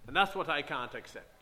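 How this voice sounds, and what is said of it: Imitated West Indian accent. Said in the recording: “He was a West Indian man of some sort, I think... my accent comes back a little bit”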